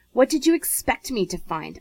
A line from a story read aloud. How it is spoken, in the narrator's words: Isaac demanded crossly